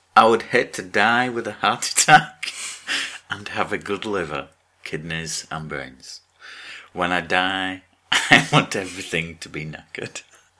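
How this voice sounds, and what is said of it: Put-on mixture of many accents. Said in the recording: “like a mixture of every accent ever”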